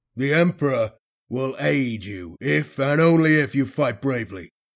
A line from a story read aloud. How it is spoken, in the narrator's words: the Commissar thundered